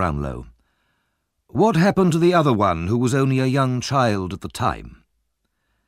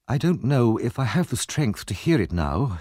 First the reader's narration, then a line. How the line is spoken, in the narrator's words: she murmured